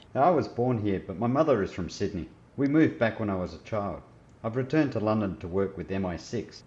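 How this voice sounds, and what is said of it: Australian accent. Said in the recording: “Your accent. It doesn't sound English. ... such a different accent ... I'm an Aussie”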